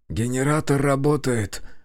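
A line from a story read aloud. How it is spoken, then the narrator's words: Whisper. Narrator (Russian): шепотом произнес Шавкат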